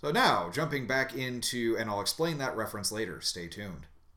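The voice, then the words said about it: Radio announcer voice. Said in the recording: “using my best radio announcer voice.”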